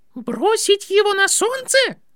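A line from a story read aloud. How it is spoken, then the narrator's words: Squeak. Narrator (Russian): пискнул профессор Флитвик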